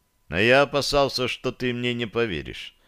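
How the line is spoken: Quiet reply. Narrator (Russian): негромко ответил я

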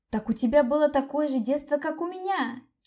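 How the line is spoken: Nearly crying out. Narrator (Russian): чуть не вскрикнула я

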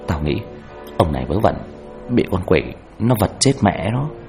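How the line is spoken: Whisper. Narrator (Vietnamese): Tôi khẽ nói nhỏ vào tai nó

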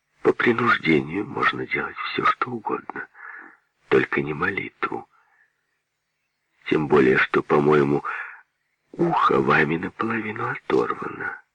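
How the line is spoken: Empress's calm whisper. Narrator (Russian): государыня спокойно, но только шепотом ответила

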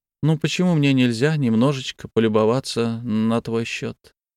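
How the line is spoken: Affectionate question. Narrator (Russian): Ласковым тоном спросила

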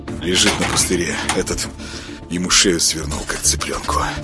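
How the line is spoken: Gloomy mutter over shoulder. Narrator (Russian): хмуро пробурчал через плечо

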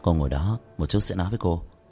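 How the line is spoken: Soft smile. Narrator (Vietnamese): khẽ mỉm cười

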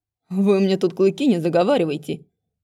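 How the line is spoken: Snapping retort. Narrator (Russian): огрызнулся оборотень

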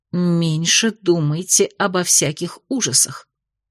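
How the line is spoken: Rude low hiss. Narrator (Russian): прошипела я в полголоса, забив на этикеты вежливость

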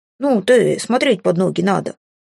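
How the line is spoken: Gruff bark. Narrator (Russian): рявкнул Филя и сердито вздыбил шерсть

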